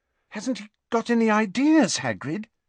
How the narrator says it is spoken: asked Hermione desperately

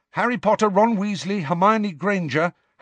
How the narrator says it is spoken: Harry said very quickly

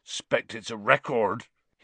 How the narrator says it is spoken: said thickly

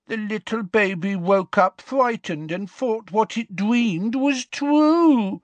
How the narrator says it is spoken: said the woman in a horrible mock baby voice

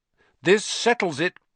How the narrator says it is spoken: said Ron in a triumphant voice

